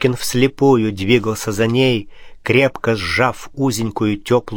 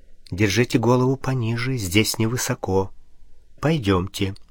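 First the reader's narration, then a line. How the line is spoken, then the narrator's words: Quiet speech. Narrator (Russian): Графиня проговорила тихо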